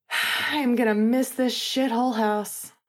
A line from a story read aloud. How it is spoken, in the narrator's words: Finn sighed